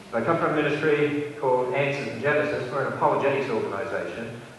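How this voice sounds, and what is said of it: Australian accent. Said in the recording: “you'll notice that I don't have an American accent, even though I live in America ... I originally come from Australia”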